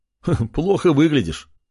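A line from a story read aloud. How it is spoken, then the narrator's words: Laughing king. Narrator (Russian): рассмеялся король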